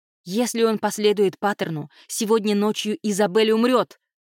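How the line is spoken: Exclaimed. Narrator (Russian): воскликнула Кайра

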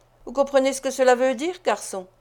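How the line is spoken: Curt, dry. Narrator (French): dit sèchement l'étranger

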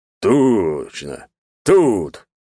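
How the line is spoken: Big man's growl. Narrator (Russian): зарычал здоровяк

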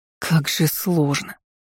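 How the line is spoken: Wistful groan. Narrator (Russian): простонала, с тоской

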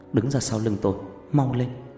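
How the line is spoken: Soft. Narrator (Vietnamese): Loan khẽ nói

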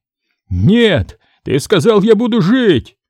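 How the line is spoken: Yelling. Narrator (Russian): заорал Морот

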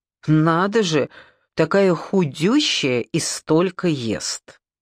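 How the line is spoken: Loud complaining stepmother. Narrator (Russian): папина жена громко сетовала

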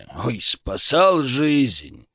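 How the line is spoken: Snorting. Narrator (Russian): хмыкнул Шаповалов

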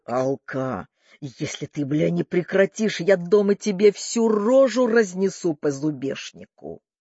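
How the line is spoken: Growled. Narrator (Russian): рычал

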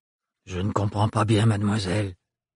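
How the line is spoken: Monotone. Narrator (French): dit-il d'un ton monocorde

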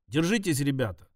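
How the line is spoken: Plain. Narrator (Russian): сказал я

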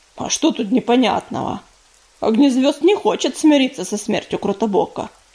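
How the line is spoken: Grumbling. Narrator (Russian): проворчал Дым

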